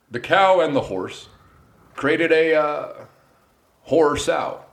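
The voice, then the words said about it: Barack Obama impression. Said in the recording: “Tell me a sentence I'll say as Obama.”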